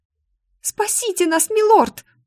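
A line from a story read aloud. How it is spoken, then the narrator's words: Squeak, young woman. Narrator (Russian): пискнула очередная жертва, в которой я узнала Мари, дочь мельника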